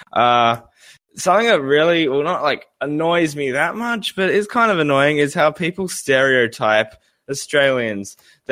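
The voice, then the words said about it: Australian accent. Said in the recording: “my accent, I'm Australian”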